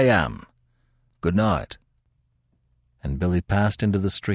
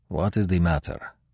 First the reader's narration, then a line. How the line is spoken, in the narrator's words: asked Leon softly